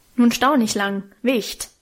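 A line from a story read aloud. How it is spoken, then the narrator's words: Gruff man snapping. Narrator (German): schnauzte mich einer der großen, rußgeschwärzten Männer an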